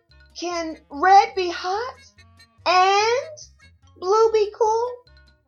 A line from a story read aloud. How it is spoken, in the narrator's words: Blue called out